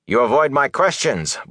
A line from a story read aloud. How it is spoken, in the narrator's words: Bornhold snapped